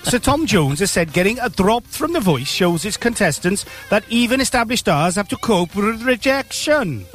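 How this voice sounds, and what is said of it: Bad put-on Welsh accent. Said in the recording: “Worst Welsh accent.”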